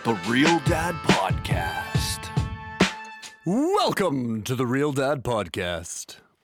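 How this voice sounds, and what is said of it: Announcer-style radio voice. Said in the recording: “I just wanted to try my radio voice. ... That kind of came out hot, didn't it?”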